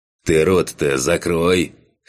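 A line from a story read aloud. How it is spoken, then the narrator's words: Scoffing. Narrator (Russian): хмыкнул Кан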